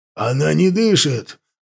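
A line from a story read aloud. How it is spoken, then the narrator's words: Breathless exhale. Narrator (Russian): выдохнул Даргаш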